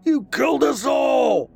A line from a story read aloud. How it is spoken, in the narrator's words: Max screamed back